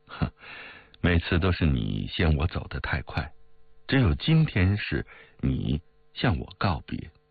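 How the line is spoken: Laughing. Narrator (Chinese): 江红笑道

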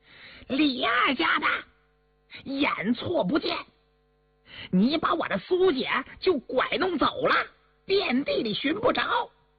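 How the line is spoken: Angry old woman shouting. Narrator (Chinese): 一个老婆子的生气叫喊着

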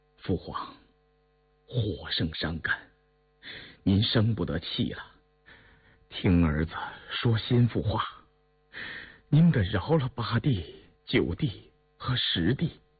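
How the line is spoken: Earnest murmuring plea. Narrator (Chinese): 胤禛口中喃喃喁喁，恳切地说道

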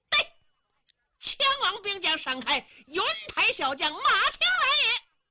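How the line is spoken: Shouting while running. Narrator (Chinese): 这员小将也是一边跑一边嚷

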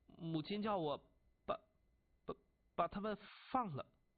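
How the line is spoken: Stammering. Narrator (Chinese): 结结巴巴地说

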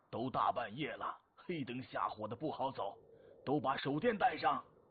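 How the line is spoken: Old man calling out. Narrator (Chinese): 老厂长又喊

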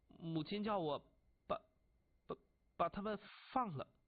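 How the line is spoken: Stammering. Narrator (Chinese): 晋襄公结结巴巴地说

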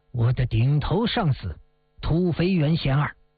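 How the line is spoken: Cold. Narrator (Chinese): 萧峰冷冷地说

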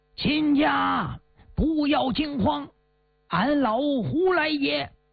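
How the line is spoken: Shouting from afar. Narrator (Chinese): 离老远他就喊上了

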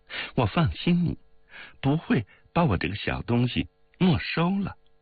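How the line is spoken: Laughing. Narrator (Chinese): 他笑着说

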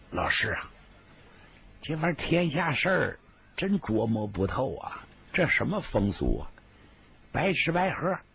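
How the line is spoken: Amused, low voice. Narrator (Chinese): 李琦乐了，压低声音跟黄天霸说

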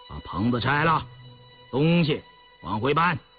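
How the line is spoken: Stern commanding. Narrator (Chinese): 印四俨然主子般厉声指挥

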